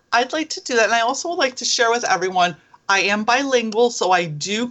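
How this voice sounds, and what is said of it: Rich American accent. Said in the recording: “that lovely, lovely rich accent”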